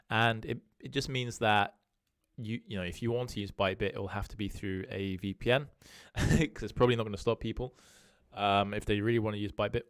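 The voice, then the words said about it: British accent. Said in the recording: “I'm based in the UK, if you can tell from my accent.”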